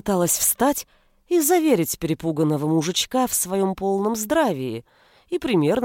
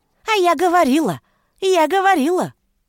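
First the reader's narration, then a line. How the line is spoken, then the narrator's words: Shrill triumphant female voice. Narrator (Russian): торжествовал визгливый женский голосок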